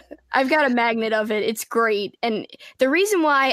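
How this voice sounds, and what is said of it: Usual voice. Nothing is said of it.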